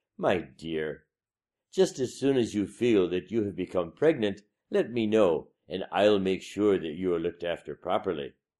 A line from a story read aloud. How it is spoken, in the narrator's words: the first wife said sweetly